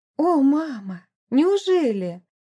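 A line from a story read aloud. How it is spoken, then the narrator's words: Joint exclamation. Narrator (Russian): разом воскликнули Эмили и Мэри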